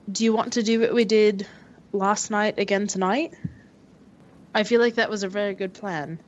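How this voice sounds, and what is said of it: Poorly done put-on accent. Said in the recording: “forgive my accent for being like shit”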